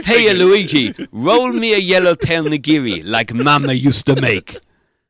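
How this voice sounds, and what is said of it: Put-on Italian accent. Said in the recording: “That's my Italian ... accent.”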